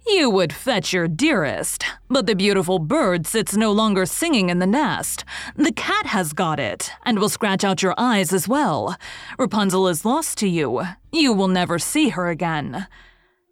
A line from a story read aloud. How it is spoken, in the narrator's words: she cried mockingly